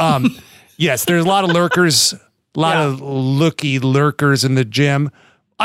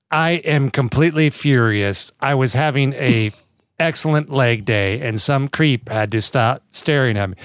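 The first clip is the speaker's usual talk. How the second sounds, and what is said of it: Robotic text-to-speech voice. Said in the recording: “robot voice”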